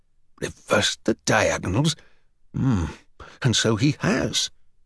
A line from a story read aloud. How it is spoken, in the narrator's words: muttering to himself